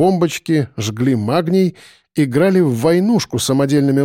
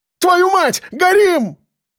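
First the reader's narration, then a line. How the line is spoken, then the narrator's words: Fat man yelling. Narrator (Russian): заорал один, толстый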